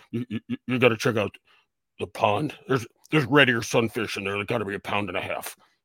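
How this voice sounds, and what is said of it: Imitates another person's voice. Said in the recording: “Why are you talking like Dr. Steve Brule? ... I always did an impersonation of Jerry Krause”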